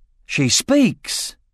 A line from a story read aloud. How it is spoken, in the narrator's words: exclaimed Roran